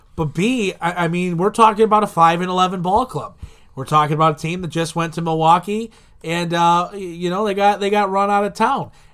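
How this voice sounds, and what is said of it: Slightly hoarse voice. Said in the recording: “my voice is a little hoarse today”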